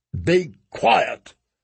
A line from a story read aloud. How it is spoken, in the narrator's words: Stannis snapped